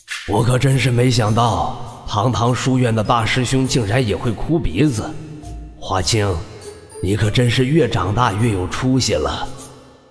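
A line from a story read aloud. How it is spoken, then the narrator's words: Cheeky, mocking. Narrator (Chinese): 一道贱兮兮的声音从他耳边响起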